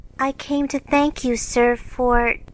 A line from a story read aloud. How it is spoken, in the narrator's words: Lawrence, who looked quite taken aback, saying, with only a small quaver in her voice